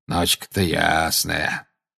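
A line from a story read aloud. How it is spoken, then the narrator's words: Grumbling. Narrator (Russian): проворчал Грюм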